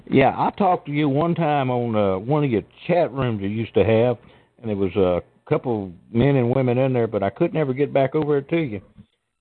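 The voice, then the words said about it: Deep Southern American accent. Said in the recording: “You have a deep southern accent. I can tell that right away.”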